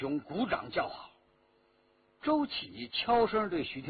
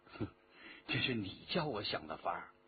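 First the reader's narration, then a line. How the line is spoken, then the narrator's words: Low voice, laughing. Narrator (Chinese): 徐天红笑着低声说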